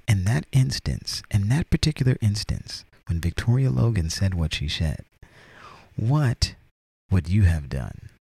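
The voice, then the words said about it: Narrator-style reading voice. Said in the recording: “I'm reading in my narration voice.”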